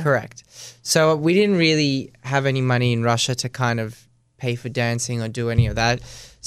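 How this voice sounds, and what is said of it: Australian accent. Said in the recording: “Your accent's very Australian though.”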